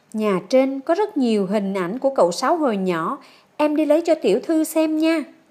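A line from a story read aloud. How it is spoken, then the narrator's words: Smiling. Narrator (Vietnamese): Lan Cầm cười mỉm cười nói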